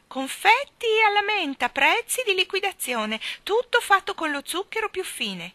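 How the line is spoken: Shouted. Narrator (Italian): gridare

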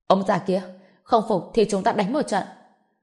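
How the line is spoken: Hot-tempered angry shout. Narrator (Vietnamese): Hoắc Chí Cương vốn có tính cách nóng nảy quát nạt

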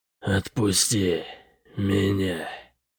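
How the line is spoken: Hiss. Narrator (Russian): прошипел Бытрим

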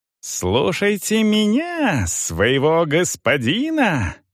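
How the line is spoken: Ogre shrieking. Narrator (Russian): визжал людоед

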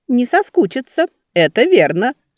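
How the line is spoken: Bursting out laughing. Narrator (Russian): расхохоталась Любица

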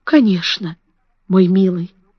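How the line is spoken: Quiet, tender voice. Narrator (Russian): сказала она тихим, ласковым голосом

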